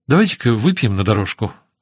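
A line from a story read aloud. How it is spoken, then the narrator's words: Quick suggestion. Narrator (Russian): быстро предложила Ноэль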